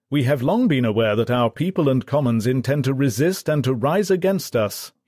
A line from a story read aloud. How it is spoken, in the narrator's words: he shouted at them